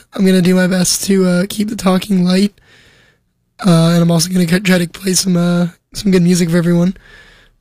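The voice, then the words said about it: Strained, not-yet-recovered voice. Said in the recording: “My voice is not recovered... without cracking”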